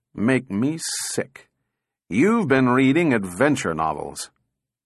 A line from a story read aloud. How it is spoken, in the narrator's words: said Powell slowly